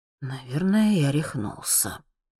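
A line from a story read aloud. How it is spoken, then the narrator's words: Quiet mumbling. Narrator (Russian): слышу я его тихое бормотание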